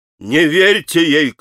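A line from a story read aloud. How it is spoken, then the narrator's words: Shouting. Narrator (Russian): кричал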